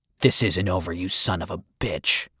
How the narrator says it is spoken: Will was growling

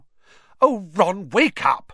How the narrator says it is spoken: snapped Hermione

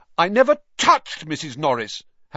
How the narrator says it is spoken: Harry said loudly, uncomfortably aware of everyone looking at him

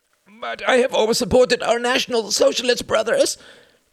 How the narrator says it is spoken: cried the voice

